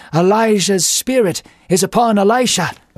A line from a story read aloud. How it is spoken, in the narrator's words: A group of prophets from a distance exclaimed